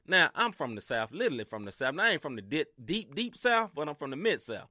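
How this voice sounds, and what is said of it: Southern US country accent. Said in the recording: “y'all can hear the country swing in my voice”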